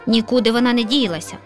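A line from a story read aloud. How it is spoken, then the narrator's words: Lazy grumble. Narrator (Ukrainian): ліниво буркнула сусідка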